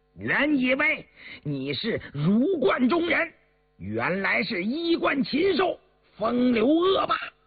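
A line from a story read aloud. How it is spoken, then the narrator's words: Struggling, shouting. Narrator (Chinese): 刘墨林挣扎着偏过头大喊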